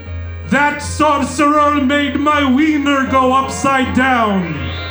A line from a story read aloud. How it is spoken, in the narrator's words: cried out